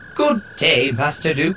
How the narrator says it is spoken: the protocol droid said, in a remarkably prissy voice

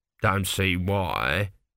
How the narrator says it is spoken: grumbled an elderly priest

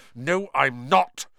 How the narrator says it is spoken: said Harry angrily

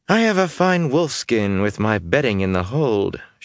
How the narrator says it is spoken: she told Chiad in a bored voice

